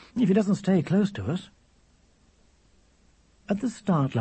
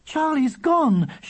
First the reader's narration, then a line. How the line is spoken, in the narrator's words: she shouted above the noise of the crowd